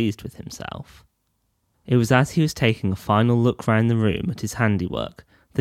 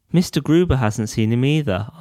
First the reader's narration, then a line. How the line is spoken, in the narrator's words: asked Jonathan